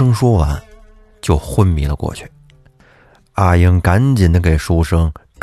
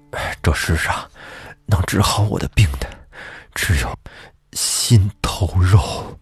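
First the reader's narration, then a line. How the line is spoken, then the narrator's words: Scholar panting heavily. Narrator (Chinese): 书生喘着粗气说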